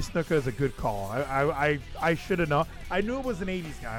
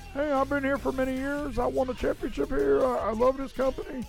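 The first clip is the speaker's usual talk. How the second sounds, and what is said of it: Imitates another person's voice. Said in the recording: “My Terry Funk impression.”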